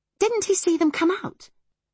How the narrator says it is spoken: exclaimed Kate

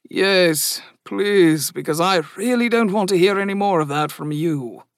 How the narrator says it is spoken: grumbled the man

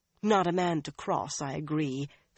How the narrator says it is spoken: Swan sighed

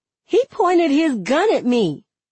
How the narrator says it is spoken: I blurt out

